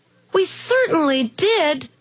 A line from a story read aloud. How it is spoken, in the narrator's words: cried all the kids